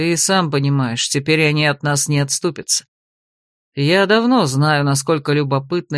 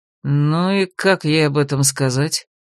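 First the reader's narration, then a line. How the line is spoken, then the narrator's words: Hopeless sigh. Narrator (Russian): Безнадежно вздохнул советник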